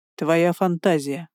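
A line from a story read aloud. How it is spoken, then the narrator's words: Dry reply. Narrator (Russian): сухо ответил Бестваж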